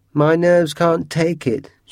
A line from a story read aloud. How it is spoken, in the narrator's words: she said